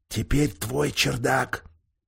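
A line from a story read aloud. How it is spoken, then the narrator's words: Whispering. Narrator (Russian): шептали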